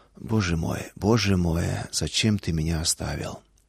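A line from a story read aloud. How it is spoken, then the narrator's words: Whisper. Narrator (Russian): Шепот, не вопль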